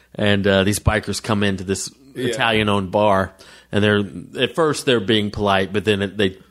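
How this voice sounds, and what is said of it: Usual voice. Nothing is said of it.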